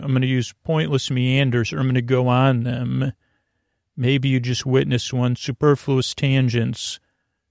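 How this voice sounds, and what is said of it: Lulling, soothing, creaky voice. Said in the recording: “I'm going to use lulling, soothing, creaky, dulcet tones.”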